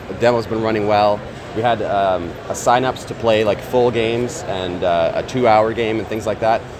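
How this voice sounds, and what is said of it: Strained, worn-out hoarse voice. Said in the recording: “my voice is actually very different today ... my voice is a little shot”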